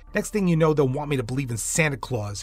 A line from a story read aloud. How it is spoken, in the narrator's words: he grumbled